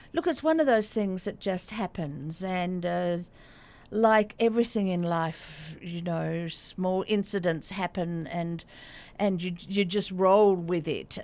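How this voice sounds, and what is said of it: Australian accent. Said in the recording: “from your accent, folks know that you're from further afield too, from ... Australia”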